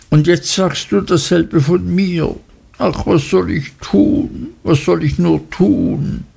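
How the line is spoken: Sobbing. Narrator (German): schluchzte Dora

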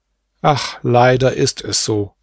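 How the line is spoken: Plain. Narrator (German): sagte Asad

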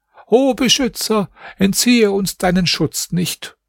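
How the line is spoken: Calling out. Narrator (German): Er rief

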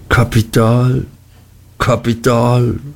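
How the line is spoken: Sigh. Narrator (German): seufzte Mr

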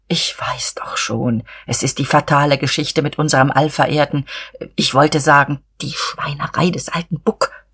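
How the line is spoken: Confidential whisper. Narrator (German): flüsterte er vertraulich

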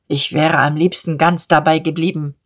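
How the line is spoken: Plain. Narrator (German): sagte Diederich

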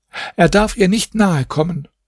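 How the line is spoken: Calling out. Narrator (German): rief die Wirtschafterin

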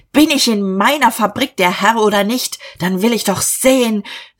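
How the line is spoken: Shouting. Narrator (German): Er schrie

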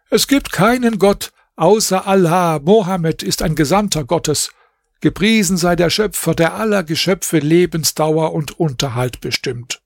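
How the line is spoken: Calling out. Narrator (German): Bedr Basim rief

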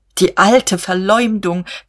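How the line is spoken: Shrieked. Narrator (German): kreischte er

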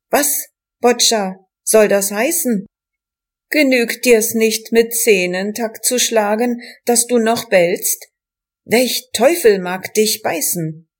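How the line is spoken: Called out. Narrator (German): einer rief

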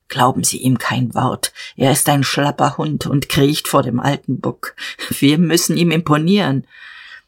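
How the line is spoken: Murmur. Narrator (German): raunte

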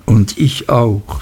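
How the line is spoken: Plain. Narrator (German): sagte

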